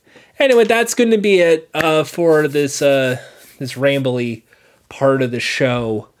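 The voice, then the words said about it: Worn-out, strained voice. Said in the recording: “My voice is just dying right now... I hope I'm not getting sick”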